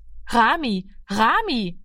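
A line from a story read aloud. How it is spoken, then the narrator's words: Calling after someone. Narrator (German): rief sie ihm nach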